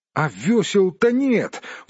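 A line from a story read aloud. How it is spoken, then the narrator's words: Exclaiming. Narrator (Russian): воскликнул Бильбо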